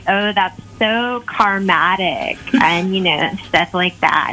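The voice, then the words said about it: Drew Barrymore impression, flower-child voice. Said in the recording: “your best impression ... Drew Barrymore”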